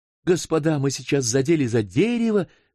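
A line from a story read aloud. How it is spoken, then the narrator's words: Exclaiming. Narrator (Russian): воскликнул Норбер Муани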